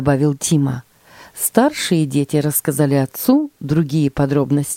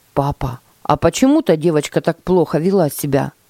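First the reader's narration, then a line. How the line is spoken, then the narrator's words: Plain. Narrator (Russian): спросил Тима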